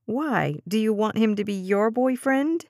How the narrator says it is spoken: Dez giggled

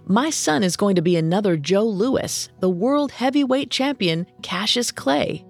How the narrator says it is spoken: exclaimed

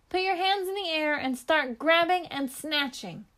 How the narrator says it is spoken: Aleda shouted to them

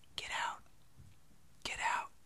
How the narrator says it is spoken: sounded like something was whispering

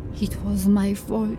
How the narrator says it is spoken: she said softly, and then louder

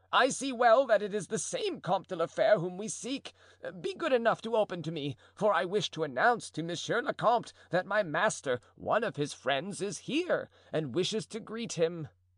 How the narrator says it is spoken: cried Planchet joyously

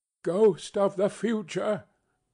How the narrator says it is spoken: exclaimed

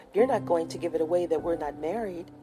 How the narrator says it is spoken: asked quickly

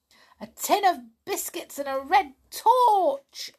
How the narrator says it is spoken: yelled Pipkin

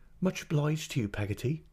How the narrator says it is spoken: returned my mother in a cheerful voice

